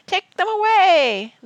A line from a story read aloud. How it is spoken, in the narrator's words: the old man howled